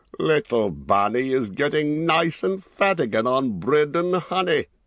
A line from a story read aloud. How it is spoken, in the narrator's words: chuckled